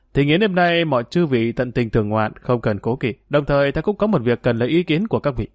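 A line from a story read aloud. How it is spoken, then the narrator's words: Smiling, speaking. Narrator (Vietnamese): Ngài Trạch Cách mỉm cười nói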